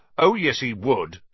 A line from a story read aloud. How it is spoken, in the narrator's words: said Ron, even more loudly than Dean